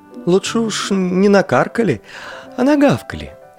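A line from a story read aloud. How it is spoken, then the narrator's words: Timid correction. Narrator (Russian): робко поправил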